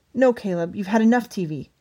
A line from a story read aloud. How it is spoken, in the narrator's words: she snapped